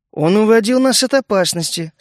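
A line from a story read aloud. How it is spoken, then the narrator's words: Calm reply. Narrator (Russian): спокойно ответил я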